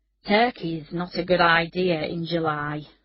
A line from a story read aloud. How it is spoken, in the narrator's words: said Ian Whitehead wearily